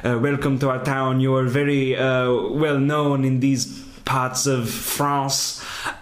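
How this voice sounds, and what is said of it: Terrible put-on French accent. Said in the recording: “They're both doing a terrible French accent. Even John Malkovich is doing a terrible French accent.”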